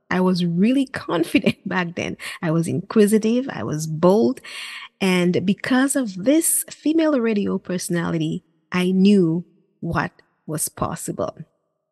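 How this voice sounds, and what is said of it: Caribbean accent. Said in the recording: “My Caribbean accent”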